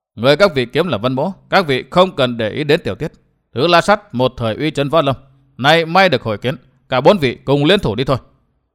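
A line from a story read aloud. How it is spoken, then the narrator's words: Lowered voice. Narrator (Vietnamese): Vân Thiên Nhạc hạ giọng nói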